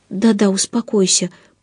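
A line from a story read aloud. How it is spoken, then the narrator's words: Agitated muttering. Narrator (Russian): пробормотала я, сама ни капельки не успокоившись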